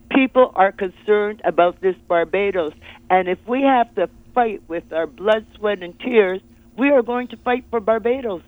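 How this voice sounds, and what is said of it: Speaks with a noticeable accent. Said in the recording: “Don't be fooled by this accent.”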